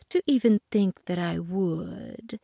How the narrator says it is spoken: purred the cat

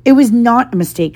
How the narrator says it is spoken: said Harry angrily

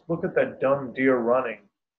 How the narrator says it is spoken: spoken by a dirty, blonde-haired, fat kid laughing and eating ice cream

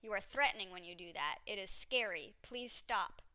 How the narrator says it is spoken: said sternly in French

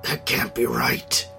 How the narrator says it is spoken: the words mumbled through clenched teeth

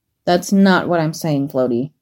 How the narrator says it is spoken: growled with annoyance

